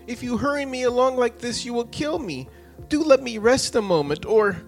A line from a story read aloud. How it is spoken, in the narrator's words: at last he gasped out